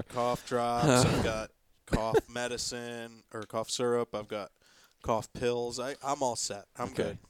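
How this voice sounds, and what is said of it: Raspy, sick-sounding voice. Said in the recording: “I will likely be as raspy as anyone could expect during this podcast”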